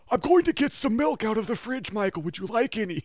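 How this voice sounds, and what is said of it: Imitates another person's voice. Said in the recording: “It was just Tony Robbins impressions the entire time.”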